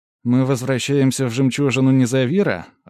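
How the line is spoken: Joyful question. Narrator (Russian): радостно спросил Ирен

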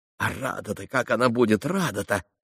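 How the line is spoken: Mutter. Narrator (Russian): пробормотал было он

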